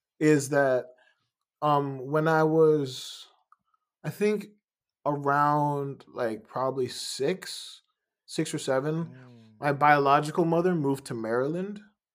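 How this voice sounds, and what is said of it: Speaks with an American accent. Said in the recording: “my strangely American accent ... my accent, which I know sounds so American”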